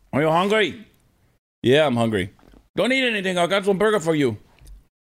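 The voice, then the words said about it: Imitates another person's voice, Mexican-sounding. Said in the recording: “I can't do a good Chris Cruz impersonation ... Why do I sound Mexican?”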